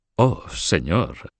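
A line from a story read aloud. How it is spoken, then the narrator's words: Murmured acknowledgment. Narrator (Spanish): murmuró Bouvilles en reconocimiento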